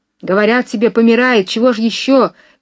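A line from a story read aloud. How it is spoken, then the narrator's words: Distant shout. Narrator (Russian): кричал кто-то с другой стороны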